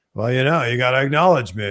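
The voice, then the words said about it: Imitates another person's voice. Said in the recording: “is that your Roman Reigns impression?”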